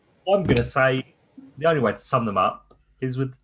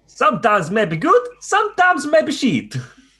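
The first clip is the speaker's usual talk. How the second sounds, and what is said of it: Imitated accent of another person. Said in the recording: “Gennaro Gattuso's famous line ... Brilliant accent, by the way. Brilliant accent.”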